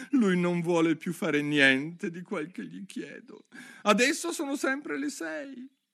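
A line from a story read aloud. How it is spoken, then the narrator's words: Whining voice. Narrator (Italian): continuò il cappellaio con voce lamentosa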